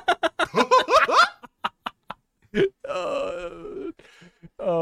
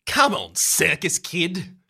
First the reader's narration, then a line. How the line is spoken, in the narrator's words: she snaps